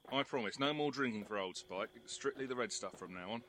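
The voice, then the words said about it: English accent. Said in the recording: “That English accent is really coming along now.”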